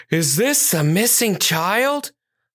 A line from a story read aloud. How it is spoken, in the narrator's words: Officer Robin asked, her voice filled with concern and a little out of breath